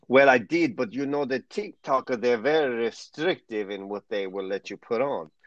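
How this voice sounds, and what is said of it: Impression of Yuri's accent. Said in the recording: “my best Yuri accent ... hey, that was pretty good.”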